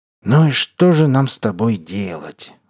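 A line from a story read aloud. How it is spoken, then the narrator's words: Orc sighing. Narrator (Russian): вздохнул орк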